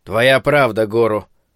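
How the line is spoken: Grumbling. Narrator (Russian): проворчал Куроба

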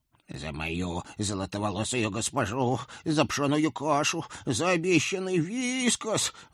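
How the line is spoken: Small one yelling. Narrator (Russian): вопил маленький де Сигуаль

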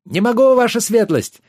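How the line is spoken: Shouting while rowing hard. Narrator (Russian): гребя изо всех сил и не оборачиваясь, выкрикнул Йен

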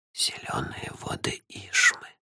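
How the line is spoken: Quiet insistent whisper. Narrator (Russian): тихо, но настойчиво поправил меня чей-то шепот

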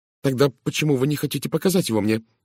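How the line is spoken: Tense, restraining emotion. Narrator (Russian): спросила Мэри Кавендиш напряженным голосом, определенно отчаянно сдерживая свои эмоции

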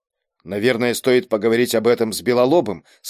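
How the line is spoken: Plain. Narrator (Russian): сказал Берг

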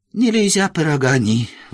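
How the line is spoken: Sighing. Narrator (Russian): вздохнул он

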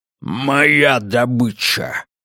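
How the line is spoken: Growl. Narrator (Russian): рыкнул он

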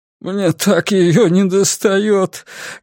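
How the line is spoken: Sobbing. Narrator (Russian): говорил он, всхлипывая

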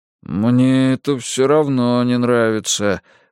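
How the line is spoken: Grumbling but yielding. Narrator (Russian): ворчал Дин, но чувствовалось, что он уже согласился с нами

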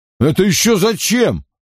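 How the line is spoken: Irritated question. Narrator (Russian): худой раздраженно спросил

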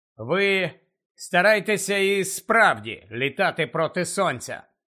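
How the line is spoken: Reluctant grumble. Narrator (Ukrainian): неохоче буркнув він

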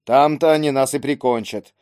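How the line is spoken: Gloomy, distrustful. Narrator (Russian): мрачно изрек недоверчивый легионер

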